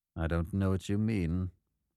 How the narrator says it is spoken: said in a very level voice

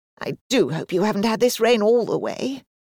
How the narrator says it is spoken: said anxiously

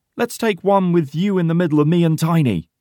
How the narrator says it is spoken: shouts Porter with a big smile

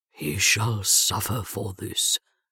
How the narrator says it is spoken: Rommy vowed grimly

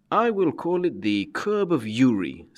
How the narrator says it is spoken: said Gessler with a cruel laugh

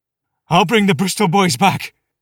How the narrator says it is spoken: the officer yelled hysterically, tears running through his sooty moustaches

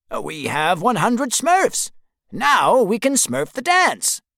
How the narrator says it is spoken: says happily

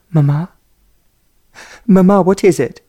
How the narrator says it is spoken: she cried

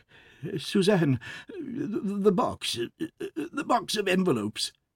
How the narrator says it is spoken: He stammered in a choking voice

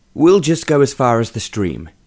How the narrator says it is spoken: Sir John said

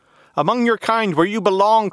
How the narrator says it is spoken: cried the mattress

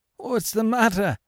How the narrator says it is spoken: stammered Monsieur Gerbois

